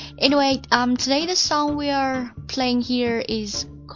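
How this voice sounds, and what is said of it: Usual voice. Nothing is said of it.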